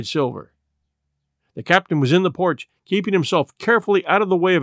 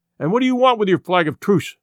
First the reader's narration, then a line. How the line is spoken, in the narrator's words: he cried